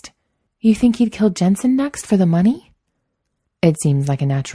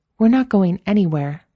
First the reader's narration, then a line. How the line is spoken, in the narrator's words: Samantha said, her voice firm